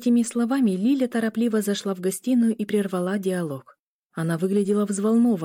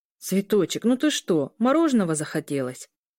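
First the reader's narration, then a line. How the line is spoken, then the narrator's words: Amused snort. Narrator (Russian): Парень смешливо фыркнул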